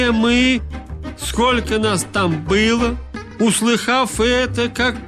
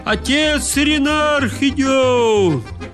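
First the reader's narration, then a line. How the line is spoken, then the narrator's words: Shout through cupped hands. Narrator (Russian): приложил руки трубкою к губам и крикнул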